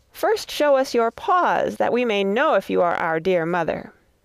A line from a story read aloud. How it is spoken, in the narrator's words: The little kids cried